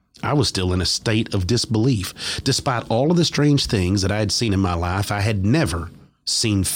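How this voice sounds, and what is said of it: Usual voice. Nothing is said of it.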